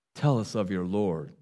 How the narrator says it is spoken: said

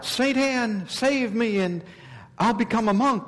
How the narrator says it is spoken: I rashly cried out

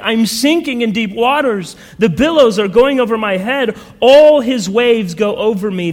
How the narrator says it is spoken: He cried out to his good friend Hopeful, saying

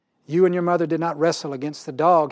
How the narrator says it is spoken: said

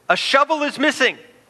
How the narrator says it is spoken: a guard shouted

